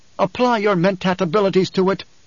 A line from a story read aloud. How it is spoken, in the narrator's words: she snapped